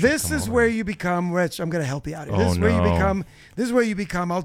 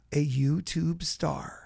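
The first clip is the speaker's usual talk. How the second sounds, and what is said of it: Announcer voice. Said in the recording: “I'll do it in the announcer voice”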